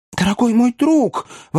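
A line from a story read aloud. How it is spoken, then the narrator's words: Exclaimed. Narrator (Russian): воскликнул мистер Пиквик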